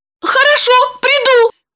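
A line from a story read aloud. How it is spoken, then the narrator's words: Squeak. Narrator (Russian): пискнула Липочка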